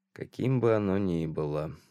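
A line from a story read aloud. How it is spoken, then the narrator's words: Mumbled. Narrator (Russian): пробормотал Лоуэр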